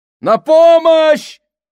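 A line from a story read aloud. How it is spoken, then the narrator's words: Shouting. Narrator (Russian): закричал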